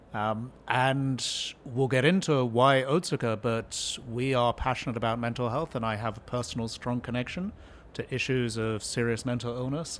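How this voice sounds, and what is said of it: New Jersey accent. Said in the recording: “As you can tell from my accent, I'm a native New Jerseyan”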